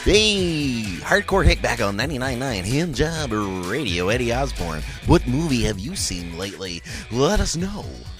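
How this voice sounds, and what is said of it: Mock radio DJ voice. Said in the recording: “radio voice? ... I love his fucking radio voice. ... It makes me giggle.”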